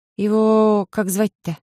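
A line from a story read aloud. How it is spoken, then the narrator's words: Slightly trembling mutter. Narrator (Russian): Слегка подрагивающим голосом пробормотала я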